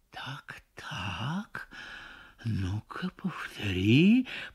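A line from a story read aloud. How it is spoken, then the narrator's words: Barely audible. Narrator (Russian): произносит он, но так тихо, что она не слышит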